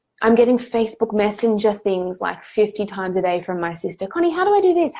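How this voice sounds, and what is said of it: Nasal, slightly croaky voice. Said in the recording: “Sorry, I'm getting nasally. I've got a head cold. I'm just starting to sound a little bit croaky now.”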